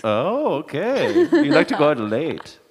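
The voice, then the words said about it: Put-on German accent. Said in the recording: “doing that accent ... I just lost all my German listeners”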